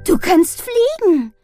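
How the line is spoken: Laughing call. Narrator (German): rief sie lachend

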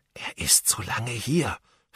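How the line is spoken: Whispering. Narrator (German): flüsterte Ben

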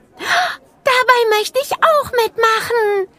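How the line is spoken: Called out. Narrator (German): rief

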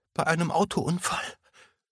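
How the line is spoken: Sobbing. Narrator (German): fuhr Emma schluchzend fort

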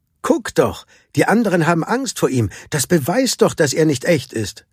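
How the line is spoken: Called out. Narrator (German): rief jemand

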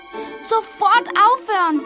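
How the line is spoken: Calling out. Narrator (German): rief Mami Fee

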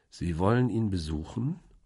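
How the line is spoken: Slow question. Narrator (German): fragte ich langsam

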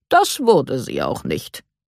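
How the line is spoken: Calm clarification. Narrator (German): stellte Herr Kahn ruhig klar

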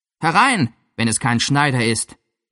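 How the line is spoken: Cheerful call. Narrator (German): rief Tom gut gelaunt

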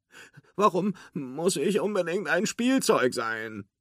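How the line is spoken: Whining. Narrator (German): jammerte Forky

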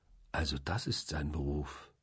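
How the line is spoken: Quiet. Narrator (German): sagte ich leise

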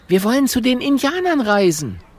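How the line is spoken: Calling out. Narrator (German): ruft Mathilda

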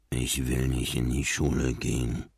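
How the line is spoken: Mumbling. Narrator (German): nuschelte Marlin

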